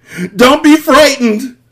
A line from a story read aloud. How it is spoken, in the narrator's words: Inigo screamed